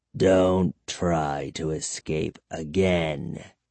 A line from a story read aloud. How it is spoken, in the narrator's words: he growled